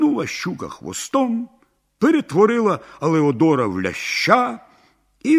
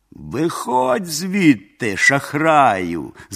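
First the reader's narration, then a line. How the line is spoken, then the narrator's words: Princess laughing. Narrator (Ukrainian): засміялася царівна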